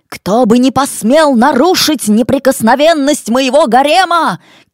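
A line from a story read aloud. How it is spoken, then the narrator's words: Shouted. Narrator (Russian): крикнул Хусейн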